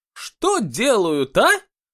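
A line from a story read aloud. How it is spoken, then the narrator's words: Indignant exclamations. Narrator (Russian): время от времени возмущенно восклицала она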